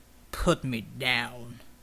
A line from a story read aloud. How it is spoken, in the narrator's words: Slick snarled